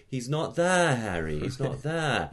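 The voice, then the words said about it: Imitates film character, very open vowels. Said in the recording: “Or someone like Hermione in Harry Potter saying ... So that very, very open sound.”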